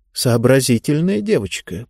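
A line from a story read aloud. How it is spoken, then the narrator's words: Muttered. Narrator (Russian): пробормотала Лектория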